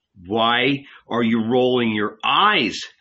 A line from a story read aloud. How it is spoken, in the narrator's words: cried Jesus